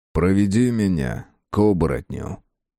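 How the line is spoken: Tired sigh. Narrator (Russian): пришелец вздохнул устало и сказал

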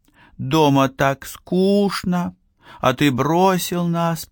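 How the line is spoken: Accusing drawl. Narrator (Russian): протянула она обвинительно

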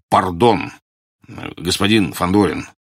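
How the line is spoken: Embarrassed deep bass. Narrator (Russian): смущенно пробасил Бурляев

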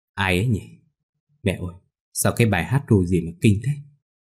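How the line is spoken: Muttering. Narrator (Vietnamese): cô lên tiếng lẩm bẩm

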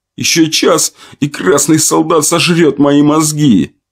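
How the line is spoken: Moaning young man. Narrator (Russian): простонал парень

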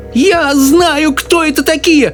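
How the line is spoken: Shrill old woman's squeal. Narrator (Russian): взвизгнула бабушка Джозефина

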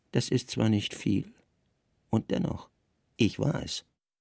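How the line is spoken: Quiet addition. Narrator (German): der leise ergänzte

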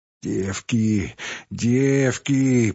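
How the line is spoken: Moaning. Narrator (Russian): простонала

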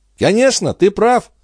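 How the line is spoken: Cheerful princess. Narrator (Russian): весело отвечала принцесса

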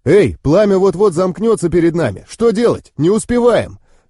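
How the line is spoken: Driver shouting. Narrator (Russian): закричал водитель

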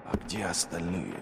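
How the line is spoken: Whisper. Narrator (Russian): прошептал он

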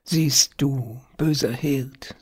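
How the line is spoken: Sad and tender. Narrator (German): sagte traurig und zärtlich

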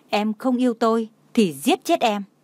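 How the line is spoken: Loud shout. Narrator (Vietnamese): hét lớn

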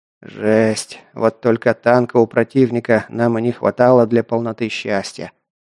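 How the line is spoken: Gloomy cursing. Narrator (Russian): мрачно выругался Воронов

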